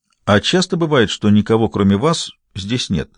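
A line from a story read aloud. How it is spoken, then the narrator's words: Courteous question. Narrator (Russian): любезным тоном спросил Гамаш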